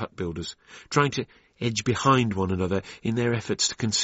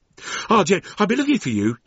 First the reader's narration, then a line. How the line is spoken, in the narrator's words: cried